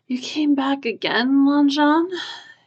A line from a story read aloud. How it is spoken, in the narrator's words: yawned, weary smile